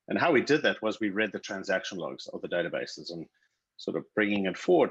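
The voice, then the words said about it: South African accent. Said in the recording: “I founded a company in South Africa. You hear I have an accent.”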